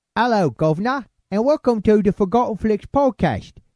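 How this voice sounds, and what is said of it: Put-on Cockney accent. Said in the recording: “I figure I ought to talk like this for the whole bleeding podcast... my Cockney accent”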